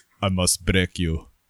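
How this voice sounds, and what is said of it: Put-on Russian accent. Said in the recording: “All of a sudden, I had an, a Russian accent, like Dolph Lundgren in Rocky.”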